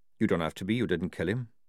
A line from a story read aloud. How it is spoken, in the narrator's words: said Jackram evenly